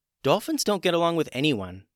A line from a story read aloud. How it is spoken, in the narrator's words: said Gwen